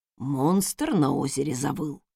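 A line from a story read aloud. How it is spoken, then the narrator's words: Whispered clarification. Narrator (Russian): шепотом уточнил Вернон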